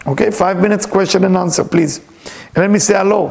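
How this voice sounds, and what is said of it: Speaks with a noticeable accent. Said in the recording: “with my accent, never come right”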